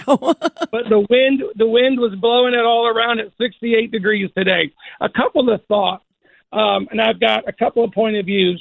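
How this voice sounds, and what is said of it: Rough, unwell-sounding voice. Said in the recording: “excuse my voice. It's allergy season in North Texas.”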